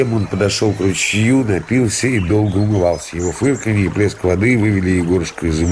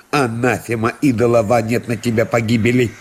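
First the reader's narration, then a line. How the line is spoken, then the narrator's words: Irritated after being bitten. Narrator (Russian): Его что-то укусило … проговорил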